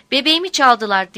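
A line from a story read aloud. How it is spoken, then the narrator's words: Also shouting. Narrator (Turkish): diye bağırıyordu o da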